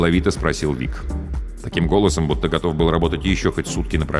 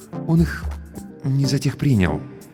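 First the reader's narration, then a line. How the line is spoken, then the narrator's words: Cautious, almost timid. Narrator (Russian): осторожно, почти робко выговорил Сарториус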